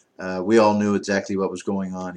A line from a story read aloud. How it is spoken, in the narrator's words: said